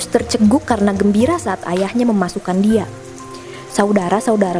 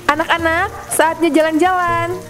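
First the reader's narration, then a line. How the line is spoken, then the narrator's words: Shouting upstairs. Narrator (Indonesian): Purdy berteriak ke lantai atas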